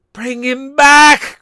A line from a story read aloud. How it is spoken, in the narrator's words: cried the old woman